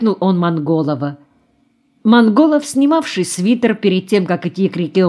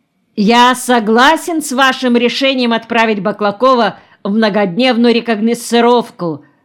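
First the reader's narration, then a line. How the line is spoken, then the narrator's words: Loud and cheerful. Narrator (Russian): громко и весело сказал Ченков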